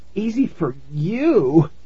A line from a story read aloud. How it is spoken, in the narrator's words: Tara said, groaning